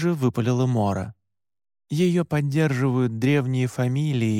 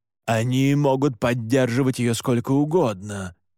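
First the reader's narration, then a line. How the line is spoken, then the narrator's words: Growled. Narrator (Russian): прорычал Александр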